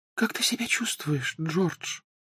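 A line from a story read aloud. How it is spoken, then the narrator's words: Whispering. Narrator (Russian): прошептала миссис Уизли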